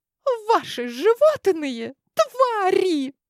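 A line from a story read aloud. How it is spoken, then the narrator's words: Shrill shriek. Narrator (Russian): Прям взвизгнула одна из девушек гарема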